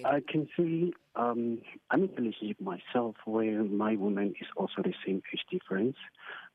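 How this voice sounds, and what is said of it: Disguised, altered accent. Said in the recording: “I will just change my accent a bit just for the people that know me”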